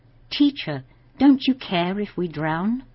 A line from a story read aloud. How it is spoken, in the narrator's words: The disciples cried out to Jesus